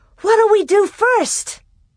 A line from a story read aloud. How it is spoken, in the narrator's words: Alice cried